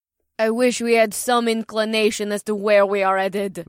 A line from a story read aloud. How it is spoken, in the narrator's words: Mira grumbled